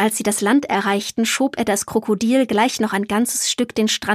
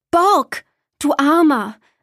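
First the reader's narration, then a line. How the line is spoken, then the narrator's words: Called out. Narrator (German): rief sie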